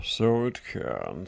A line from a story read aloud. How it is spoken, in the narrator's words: said the king wearily